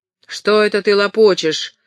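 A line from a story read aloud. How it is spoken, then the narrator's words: Sharp question. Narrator (Russian): резко спросила Хэвис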